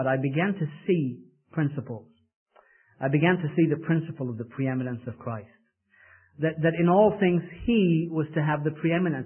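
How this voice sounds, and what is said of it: English accent. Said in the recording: “wonderful English accent”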